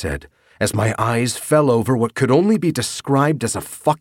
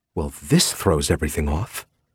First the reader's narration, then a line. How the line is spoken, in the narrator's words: Veronica mumbled